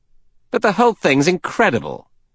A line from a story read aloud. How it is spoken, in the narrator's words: Sir Thomas Legg, Assistant Commissioner at Scotland Yard, said irritably